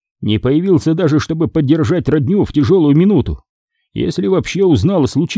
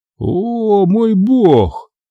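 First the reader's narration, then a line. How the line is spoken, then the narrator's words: Forced-out words. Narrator (Russian): только и выдавил Ламарк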